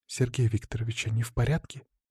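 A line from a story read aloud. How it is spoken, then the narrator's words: Hushed careful question. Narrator (Russian): Тихо, будто боясь спугнуть их, поинтересовалась Марина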